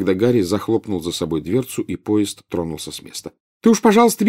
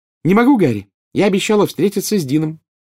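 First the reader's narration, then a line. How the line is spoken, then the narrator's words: Cheerful reply. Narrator (Russian): весело ответила Джинни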